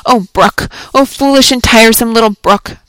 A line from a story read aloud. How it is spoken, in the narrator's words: cried Pearl